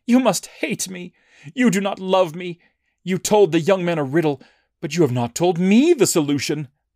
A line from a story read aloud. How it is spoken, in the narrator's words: Samson's bride cried on his shoulder and said